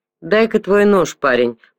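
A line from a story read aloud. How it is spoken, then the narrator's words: Growl. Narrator (Russian): прорычал Симс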